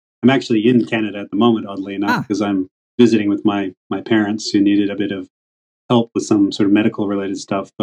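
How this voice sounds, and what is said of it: Muddled North American accent. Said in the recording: “judging from your accent, sorry to pry, you sound like you're an American ... I've got the muddled accent probably now. Nobody knows where to place me ... West Coast Canadian”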